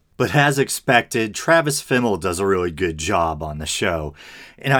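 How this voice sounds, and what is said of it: Usual voice. Nothing is said of it.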